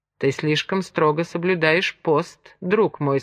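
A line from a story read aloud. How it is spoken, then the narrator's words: Plain. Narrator (Russian): сказал Томас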